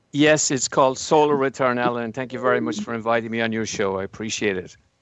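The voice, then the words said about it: Irish accent. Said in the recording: “I love that Irish accent”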